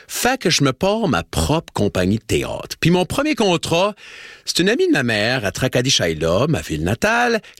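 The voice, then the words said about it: Slight distinctive regional French accent. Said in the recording (French): “j'ai un petit accent spécial”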